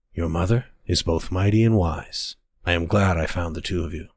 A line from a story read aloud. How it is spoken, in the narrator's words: whispered